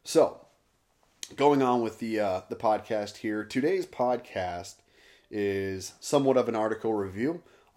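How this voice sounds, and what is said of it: Hoarse, worn-out voice. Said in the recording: “sick and coughing and just hacking up nastiness. Therefore, my throat, my voice is just trashed ... voice has been trashed”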